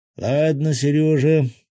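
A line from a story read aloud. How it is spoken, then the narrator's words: Sighed. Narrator (Russian): Золотарецкий вздохнул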